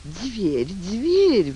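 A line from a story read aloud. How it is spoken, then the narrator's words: Sighing countess. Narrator (Russian): вздохнула графиня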